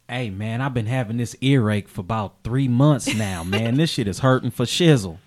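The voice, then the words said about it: Imitates a rapper's voice. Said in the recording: “Can you do Diddy talking to Snoop? ... Can Snoop tell Diddy that he has an earache? ... rappers”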